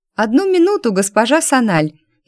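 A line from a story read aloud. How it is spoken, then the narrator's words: Cheerful young woman replying. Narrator (Russian): Весело откликнулась за всех первая красавица нашего выпуска Адиль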